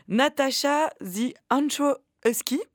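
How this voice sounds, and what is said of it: English accent on English name. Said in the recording (French): “mon accent anglais est vraiment formidable”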